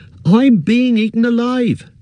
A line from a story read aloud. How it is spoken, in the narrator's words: cried Pippin